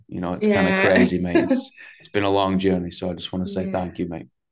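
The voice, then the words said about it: Mancunian (Manchester) English accent. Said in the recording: “my Manc accent's”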